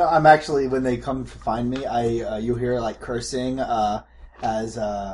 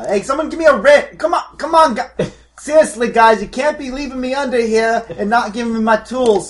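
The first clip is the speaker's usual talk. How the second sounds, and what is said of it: Screaming, shouting. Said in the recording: “I'm screaming”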